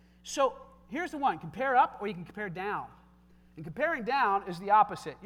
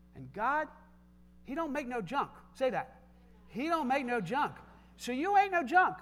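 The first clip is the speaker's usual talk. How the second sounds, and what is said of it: Put-on Tennessee Southern accent. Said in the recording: “I'm talking like a Tennessee guy now”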